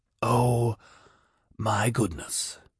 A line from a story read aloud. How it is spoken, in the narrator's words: Lartin whispered